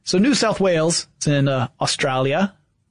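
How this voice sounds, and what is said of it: Poor put-on Australian accent. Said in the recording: “That was a terrible accent... My Australian accent is amazing.”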